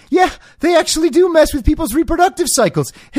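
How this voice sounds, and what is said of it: Imitates another person's voice. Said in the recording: “That's actually what Alex Berenson sounds like, by the way. ... That impression is spot on. ... That Alex Berenson impression, no one can mess with”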